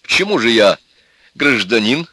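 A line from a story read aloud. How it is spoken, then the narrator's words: Asked after laughing. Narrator (Russian): спросил следователь, отсмеявшись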